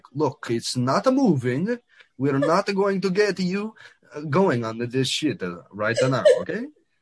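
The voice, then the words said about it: Put-on Italian accent. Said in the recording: “I don't know why the Italian accent or whatever”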